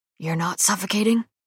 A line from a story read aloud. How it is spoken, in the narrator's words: his voice rough when he says